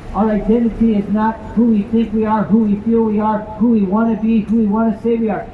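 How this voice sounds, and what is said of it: American accent. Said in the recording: “I can tell by your accent that you're American.”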